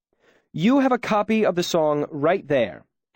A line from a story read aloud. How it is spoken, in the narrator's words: Ambrose said hotly